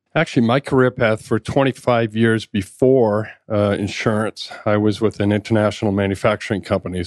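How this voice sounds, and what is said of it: Slight Boston accent. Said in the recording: “born and raised in Boston. That's the kind of the little, yeah, the little accent”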